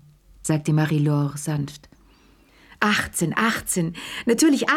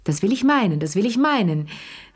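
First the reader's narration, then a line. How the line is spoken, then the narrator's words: Called out. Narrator (German): rief Madame Pelloux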